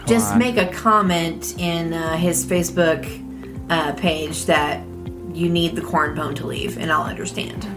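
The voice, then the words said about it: Twangy accent. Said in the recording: “my really weird, twangy accent”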